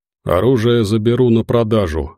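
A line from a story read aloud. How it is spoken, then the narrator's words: Plain. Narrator (Russian): сказал Забы Ягода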